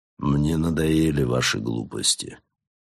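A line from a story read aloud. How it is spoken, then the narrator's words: Tired, curt. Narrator (Russian): бросил он усталым голосом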